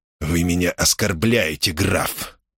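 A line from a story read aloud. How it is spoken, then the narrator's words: Hissing. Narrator (Russian): прошипел он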